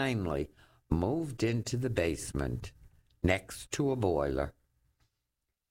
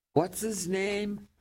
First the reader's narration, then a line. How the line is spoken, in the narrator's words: Teddy yelled at his aide